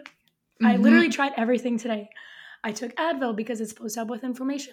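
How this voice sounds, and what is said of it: Hoarse, nearly lost voice. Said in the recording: “I lost my voice ... I have no voice”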